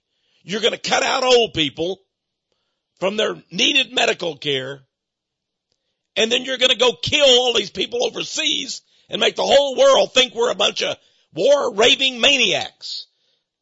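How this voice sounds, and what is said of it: Angry, heated speaking. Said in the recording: “you sound angry. ... I am angry.”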